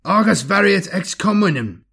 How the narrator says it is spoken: shouted hoarsely

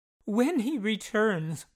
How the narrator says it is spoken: Marsden gasped

